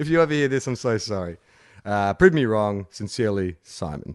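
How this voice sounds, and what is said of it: Usual voice. Nothing is said of it.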